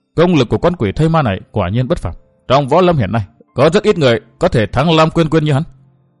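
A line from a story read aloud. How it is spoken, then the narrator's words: Astonished mutter. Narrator (Vietnamese): Cô nương bịt mặt lộ vẻ kinh ngạc lẩm bẩm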